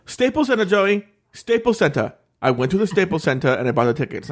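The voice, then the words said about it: Imitates another person's voice, accented. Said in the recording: “I want to hear your dad's accent ... the way you do his voice”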